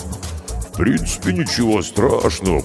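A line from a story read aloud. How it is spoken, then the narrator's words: Low booming voice. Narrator (Russian): прогудел Карков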